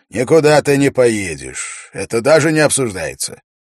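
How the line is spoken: Commanding royal voice. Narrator (Russian): король властным голосом произнес

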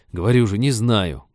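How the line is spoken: Rude snapping. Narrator (Russian): грубовато огрызнулся Женька

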